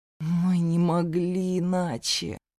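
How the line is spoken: Hopeless moan. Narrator (Russian): обреченно простонал Зейн

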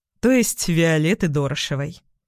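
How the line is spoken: Calmer explanation. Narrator (Russian): пояснил он уже более спокойным тоном

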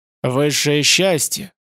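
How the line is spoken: Hoarse answer. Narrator (Russian): ответил боевик хрипло

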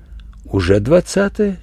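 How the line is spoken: Quiet reply. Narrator (Russian): тихо ответила Верочка

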